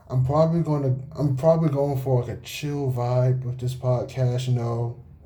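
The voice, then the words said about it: Flat monotone speaking voice. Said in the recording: “As you can probably tell by my monotone voice”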